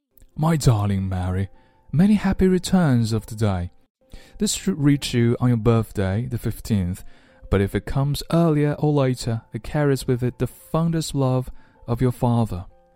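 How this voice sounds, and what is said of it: Comical put-on British accent. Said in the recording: “英俊读啊，不过呢， ... 的英音总会有一种搞笑的感觉 ... do you like my British accent?”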